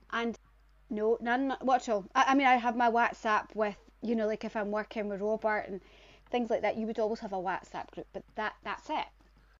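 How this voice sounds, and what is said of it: Scottish accent from near Edinburgh. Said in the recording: “Where are you from, girl? ... What's your accent? ... I'm from Bonnerig. Outside Edinburgh. Aye, just outside Edinburgh.”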